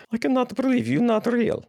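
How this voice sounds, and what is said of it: Weak attempt at Chekov's accent. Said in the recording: “I'm surprised you didn't do that in the Chekhov accent ... That wasn't very good either ... you're kind of like a mix of the Lucky Charms leprechaun and...”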